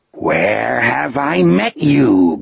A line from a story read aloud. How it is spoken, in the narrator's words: Gardner rasped